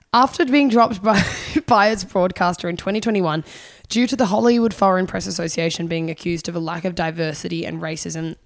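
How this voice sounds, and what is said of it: Strained voice, lost voice. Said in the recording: “obviously lost my voice ... I can't put any more vocal effort into this”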